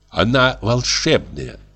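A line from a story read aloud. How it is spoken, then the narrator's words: Plain. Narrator (Russian): сказала она ему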